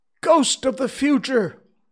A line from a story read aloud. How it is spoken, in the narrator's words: exclaimed